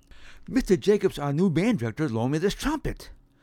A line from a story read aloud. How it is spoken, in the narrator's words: exclaimed